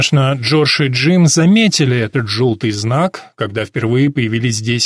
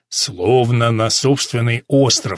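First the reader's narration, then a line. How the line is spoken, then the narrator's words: Plain. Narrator (Russian): сказал Джордж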